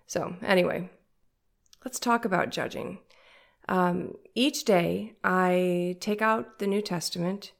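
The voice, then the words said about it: Nasal, congested voice. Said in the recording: “I sound so nasally. Can you hear it? ... I was sick for a month ... I'm judging myself to sound very nasally.”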